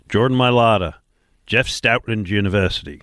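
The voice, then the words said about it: Put-on Australian-style accent. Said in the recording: “Don't know that my accent worked ... I thought I was co-hosting the show with Russell Crowe for a minute there”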